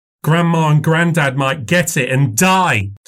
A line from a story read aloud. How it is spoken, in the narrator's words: said Robbie, leaning across the table to shout